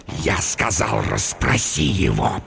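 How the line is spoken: Hissing. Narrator (Russian): прошипел он

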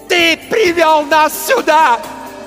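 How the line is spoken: Screaming while striking. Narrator (Russian): вопила она, нанося удар за ударом

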